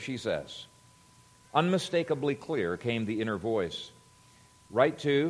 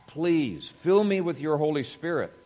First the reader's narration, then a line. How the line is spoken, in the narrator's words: she cried out to God